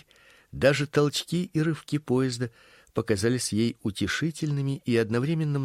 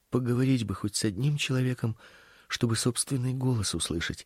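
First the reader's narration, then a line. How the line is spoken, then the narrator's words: Muttering to herself. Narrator (Russian): бормотала она про себя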